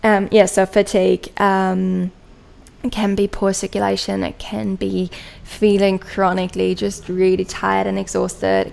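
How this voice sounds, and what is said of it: German accent. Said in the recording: “my own German accent come in there”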